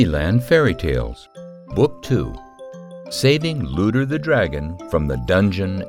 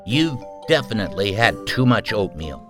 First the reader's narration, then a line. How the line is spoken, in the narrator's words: Obi scoffed